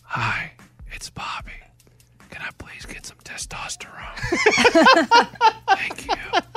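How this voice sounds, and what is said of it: Soft whisper. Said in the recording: “why don't you whisper for all of us? ... But whisper louder.”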